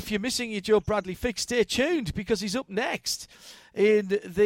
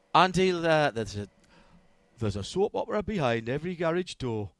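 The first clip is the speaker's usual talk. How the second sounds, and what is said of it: Put-on northeast English accent. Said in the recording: “Why are you putting a northeast accent? You've got a northeast accent.”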